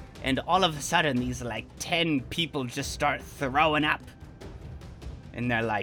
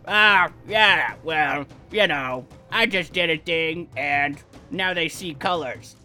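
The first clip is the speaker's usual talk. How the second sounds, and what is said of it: Imitates another person's voice. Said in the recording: “He is more like this. ... That was a good impression.”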